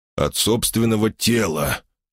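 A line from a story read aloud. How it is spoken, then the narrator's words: Honest sigh. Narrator (Russian): честно вздохнул я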